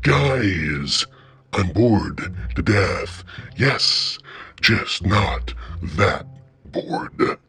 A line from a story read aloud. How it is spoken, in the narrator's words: in my deepest basso profundo voice, I say